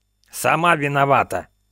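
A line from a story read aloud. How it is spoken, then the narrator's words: Hoarse wheeze. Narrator (Russian): сипел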